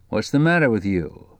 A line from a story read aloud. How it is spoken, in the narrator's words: said Quillerin